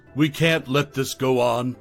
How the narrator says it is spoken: Lydia declared, her voice ringing with newfound conviction

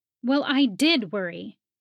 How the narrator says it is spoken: she snapped

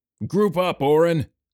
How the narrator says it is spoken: Sawyers yelled at him

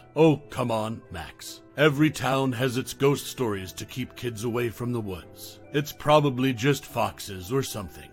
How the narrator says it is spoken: Jamie chuckled

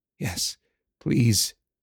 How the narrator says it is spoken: Anthem whispered

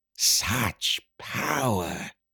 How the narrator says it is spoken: Griven hissed

